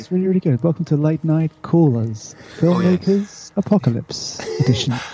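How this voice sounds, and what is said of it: Sultry late-night radio host voice. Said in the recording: “it's my sexy voice ... It sounds late night radio”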